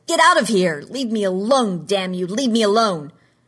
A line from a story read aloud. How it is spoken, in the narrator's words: yelled